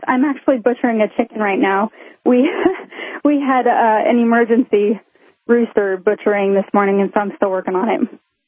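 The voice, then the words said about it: Out of breath. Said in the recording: “I sound out of breath.”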